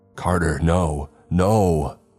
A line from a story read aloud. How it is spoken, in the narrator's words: I shouted